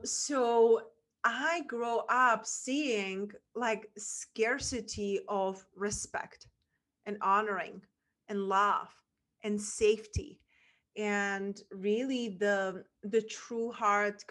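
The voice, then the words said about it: Czech accent in English. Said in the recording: “where my accent is from a small town in Czech Republic”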